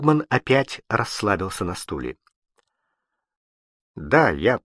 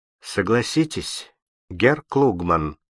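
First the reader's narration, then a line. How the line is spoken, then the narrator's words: Calm voice. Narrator (Russian): прежним спокойным голосом продолжал Фабель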